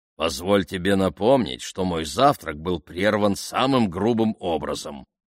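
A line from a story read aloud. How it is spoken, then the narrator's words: Grumbling. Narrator (Russian): проворчал лорд Вестерхэм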